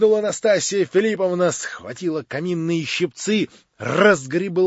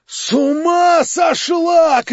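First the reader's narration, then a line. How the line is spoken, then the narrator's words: Crowd shouting. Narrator (Russian): кричали кругом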